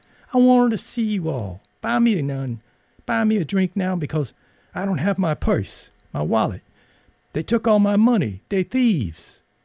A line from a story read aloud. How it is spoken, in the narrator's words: brightening in his high voice